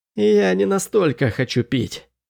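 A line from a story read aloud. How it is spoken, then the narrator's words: Dry hoarse rasp. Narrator (Russian): сухо прохрипел я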